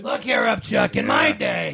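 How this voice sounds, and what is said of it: Bad Krusty the Clown impression. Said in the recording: “Doing a bad Krusty impression.”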